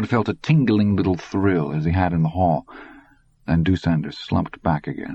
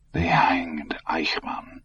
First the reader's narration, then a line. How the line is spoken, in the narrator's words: he whispered